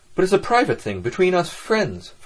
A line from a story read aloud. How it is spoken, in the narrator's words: Ferfetchkin said crossly